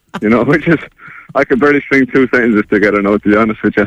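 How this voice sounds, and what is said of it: Irish accent. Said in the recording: “it doesn't sound a pure Finnish accent. You're from Ireland, aren't you?”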